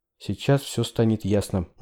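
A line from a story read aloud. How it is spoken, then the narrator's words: Quiet. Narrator (Russian): негромко сказала Хелен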